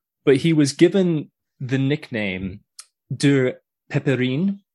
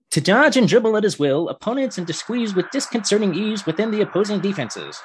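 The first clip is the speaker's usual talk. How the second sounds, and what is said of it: Old-timey radio announcer voice. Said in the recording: “I'm going to do this in an old timey radio voice.”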